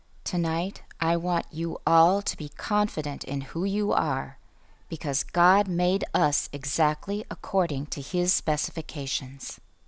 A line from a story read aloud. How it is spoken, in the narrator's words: he said in a quiet, intense voice